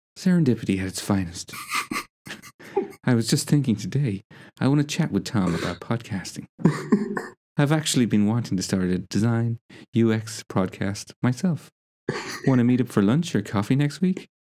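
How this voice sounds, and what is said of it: Breathy, airy imitation of another person. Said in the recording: “that was the best impression I've ever heard of myself ... it sounds like there was just air in my voice. Like if the wind blew, it would just take it away”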